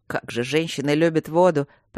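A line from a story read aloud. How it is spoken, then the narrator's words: Grumbling. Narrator (Russian): проворчал он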